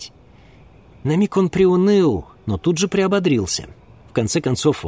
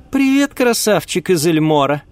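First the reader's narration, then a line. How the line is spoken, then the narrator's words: Cheerful. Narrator (Russian): сказала так весело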